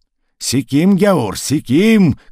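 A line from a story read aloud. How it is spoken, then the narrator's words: Shouted while dancing. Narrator (Russian): кричал он, приплясывая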